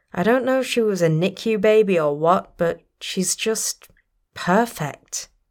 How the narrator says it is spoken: Hen sighed

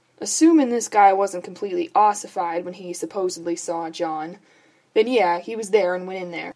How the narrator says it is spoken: Bobby sighed

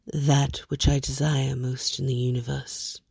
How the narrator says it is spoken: Dream says faintly

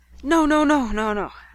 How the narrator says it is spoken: I gasped

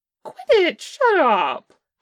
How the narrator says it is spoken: Che squeaked

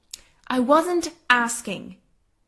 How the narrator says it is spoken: mom says firmly

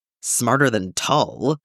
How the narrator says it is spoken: Zeb scoffed

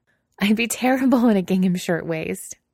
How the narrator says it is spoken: Rilla laughed

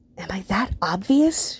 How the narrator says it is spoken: She hisses

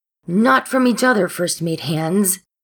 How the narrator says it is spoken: he shouts

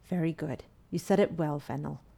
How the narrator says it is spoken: Vetch said to the child gravely

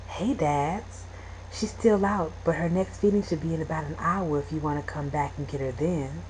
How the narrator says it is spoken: Keller whispered

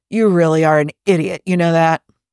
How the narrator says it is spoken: Somewhere over his shoulder, Bones growls

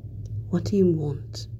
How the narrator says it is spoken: he asks Ted in a low murmur

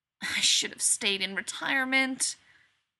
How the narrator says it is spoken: Rodney says mournfully

